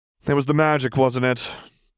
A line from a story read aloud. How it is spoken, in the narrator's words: She asked dryly